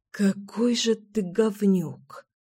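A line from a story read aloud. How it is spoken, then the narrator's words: Hissing. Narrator (Russian): прошипела Мила в ответ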